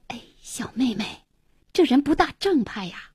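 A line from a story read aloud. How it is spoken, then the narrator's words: Low voice. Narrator (Chinese): 方太太 低声说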